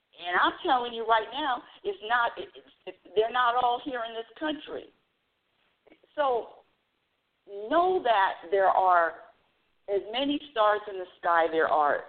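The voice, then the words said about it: Loud, passionate yelling. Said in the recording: “I don't know why I'm yelling at you, audience. I keep yelling. I don't know why I'm yelling at you. I'm just so passionate about this”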